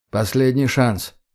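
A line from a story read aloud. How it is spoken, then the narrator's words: Calm. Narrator (Russian): говорю я спокойно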